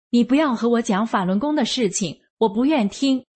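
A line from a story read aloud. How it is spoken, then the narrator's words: Angry and loud. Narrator (Chinese): 他一听就翻脸了，很生气地大声说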